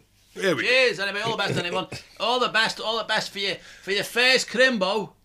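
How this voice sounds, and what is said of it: Strong Scouse accent. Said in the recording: “Why am I talking dead scouse? ... Why are you talking so scouse? ... Your natural voice comes out”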